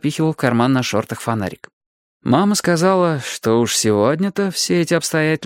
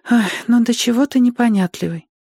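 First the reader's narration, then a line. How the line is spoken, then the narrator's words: Sighing. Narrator (Russian): вздохнула она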